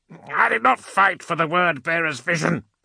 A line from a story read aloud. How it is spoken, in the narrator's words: Amuriel snapped